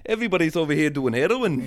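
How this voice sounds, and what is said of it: Sing-songy put-on Welsh accent. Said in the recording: “we love the Welsh... Very, very fun accent... Yeah, very sing-songy... The voice, it's musical, you know?”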